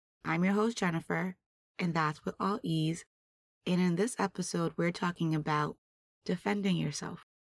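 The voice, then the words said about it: Hoarse voice, partly lost. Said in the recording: “I've recently lost my voice and I'm getting it back”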